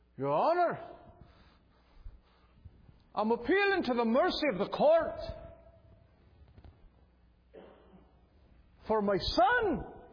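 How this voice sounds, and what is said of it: Attempted Irish or Scottish accent. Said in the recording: “I think she was Irish or Scottish, and I've been working on my Irish and Scottish accent for this, and I just can't get it.”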